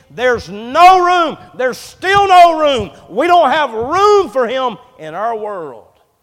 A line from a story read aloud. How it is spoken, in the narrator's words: screaming